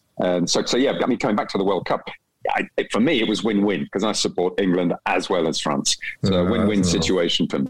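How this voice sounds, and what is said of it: English accent. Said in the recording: “I was born in Kent, hence the English accent”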